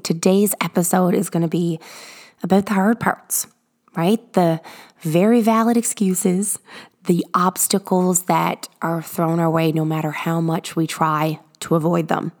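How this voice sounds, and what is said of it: Very raspy, sick-sounding voice. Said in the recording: “my voice is very raspy. ... Sickness is creeping up my way ... listening through the raspiness”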